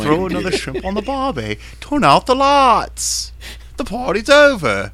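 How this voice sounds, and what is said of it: Put-on Australian accent. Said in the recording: “the Australian accent”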